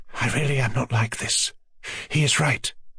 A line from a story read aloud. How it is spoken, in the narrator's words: she said in a rapid, eager whisper, flushing hotly